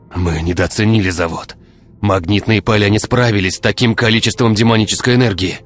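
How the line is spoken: Yelling. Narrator (Russian): вопил ученый

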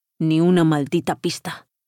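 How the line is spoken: Frustrated grumbling. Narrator (Spanish): rezongó Paolo con frustración

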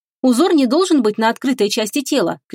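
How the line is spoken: Shout. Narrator (Russian): крикнула она

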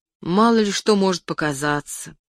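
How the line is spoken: Ashamed sigh. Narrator (Russian): вздохнул я, пристыженный

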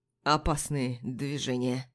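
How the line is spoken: Hoarse voice. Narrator (Russian): хрипло произносит

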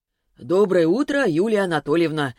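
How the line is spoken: Cheerful greeting. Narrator (Russian): радостно поприветствовал ее Селиванов

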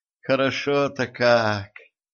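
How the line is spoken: Blissful moan. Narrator (Russian): с наслаждением простонала принцесса

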